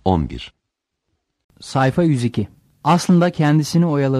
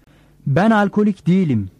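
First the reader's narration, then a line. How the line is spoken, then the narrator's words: Said loudly. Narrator (Turkish): dedi yüksek sesle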